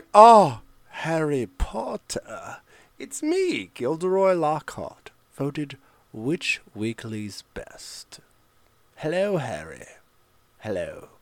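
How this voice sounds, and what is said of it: Put-on character voice of fictional wizard. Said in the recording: “That wasn't a Kenneth Branagh impression. That was my impression of what I think Gilderoy Lockhart would sound like in the book.”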